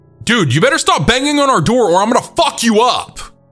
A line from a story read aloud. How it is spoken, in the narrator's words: Frank yelled at the door